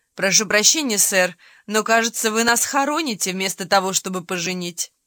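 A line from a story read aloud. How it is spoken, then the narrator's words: Laughing groom. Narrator (Russian): жених засмеялся и сказал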